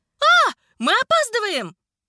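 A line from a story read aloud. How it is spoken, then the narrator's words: Loud yell. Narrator (Russian): заорала Лекси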